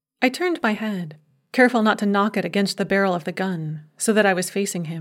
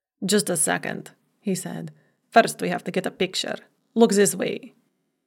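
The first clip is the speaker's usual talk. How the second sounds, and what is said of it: Russian accent. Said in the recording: “his accent was pure Russian”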